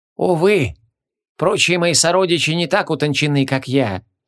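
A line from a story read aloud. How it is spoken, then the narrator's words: Sorcerer's mock-sad sigh. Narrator (Russian): С притворной печалью вздохнул колдун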